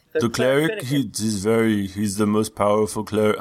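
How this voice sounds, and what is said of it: Put-on character accent. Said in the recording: “I don't know where this accent's going”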